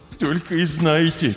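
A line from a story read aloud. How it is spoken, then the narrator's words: Heavy sigh. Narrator (Russian): тяжело вздохнул хомяк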